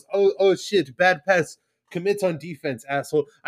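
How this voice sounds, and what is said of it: Mock French accent sounding Russian. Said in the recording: “my French sounded Russian”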